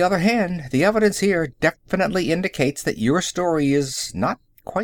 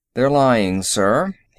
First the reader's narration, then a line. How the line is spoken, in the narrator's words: he said evenly